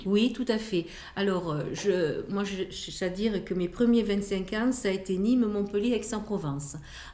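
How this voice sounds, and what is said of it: Singsong southern French accent. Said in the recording (French): “votre accent chantant, on sait que vous êtes une femme du Sud”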